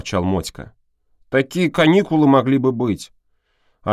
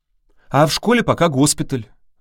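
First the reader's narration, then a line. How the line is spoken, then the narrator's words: Sighing. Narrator (Russian): вздохнула Тоська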